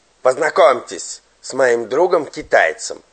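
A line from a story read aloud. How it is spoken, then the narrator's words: Shouting. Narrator (Russian): кричал Егор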